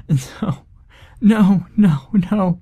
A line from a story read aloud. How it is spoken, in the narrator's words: Monica sobbed, and I just screamed